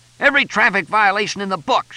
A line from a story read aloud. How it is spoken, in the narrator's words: shouted a cop